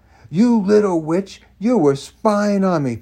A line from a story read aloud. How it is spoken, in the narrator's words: Colleen shouted